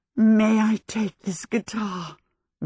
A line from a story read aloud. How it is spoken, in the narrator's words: Miss Angorian said huskily